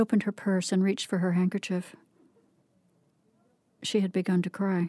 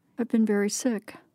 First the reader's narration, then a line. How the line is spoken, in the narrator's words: she said